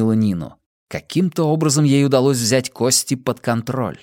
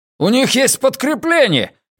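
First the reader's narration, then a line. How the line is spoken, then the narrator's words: Man shouting. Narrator (Russian): крикнул один из мужчин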